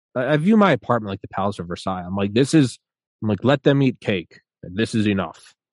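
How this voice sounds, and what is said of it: Pompous anchorman-style noble voice. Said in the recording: “a mixture of a Ron Burgundy accent talking about the Palace of Versailles, yet somehow being like a noble leader”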